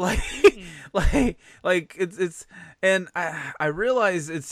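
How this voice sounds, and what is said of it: Usual voice. Nothing is said of it.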